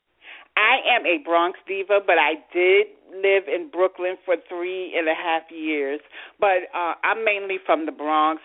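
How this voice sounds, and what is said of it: New York accent. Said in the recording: “from your accent, I want to say that you are also possibly from the great city of New York.”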